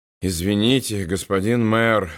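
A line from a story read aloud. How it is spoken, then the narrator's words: Tired. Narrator (Russian): устало сказал Уолтер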